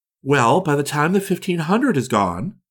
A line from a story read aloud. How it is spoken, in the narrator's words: she replied